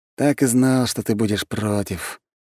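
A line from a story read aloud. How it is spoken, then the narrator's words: Tired sigh. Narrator (Russian): устало вздохнул парень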